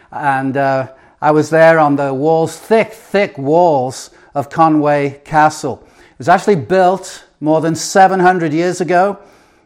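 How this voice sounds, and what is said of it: English accent. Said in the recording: “it sounds like God, G-O-D, with my English accent”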